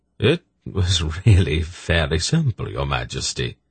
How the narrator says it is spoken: Silk said smoothly

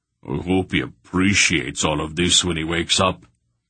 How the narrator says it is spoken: Barak grumbled

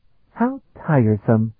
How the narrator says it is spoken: Afriel sighed

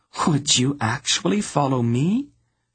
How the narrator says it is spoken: She asked in her most little girl voice

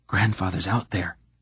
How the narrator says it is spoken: he whispered

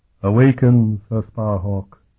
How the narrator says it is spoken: the figure commanded in a chillingly hollow tone

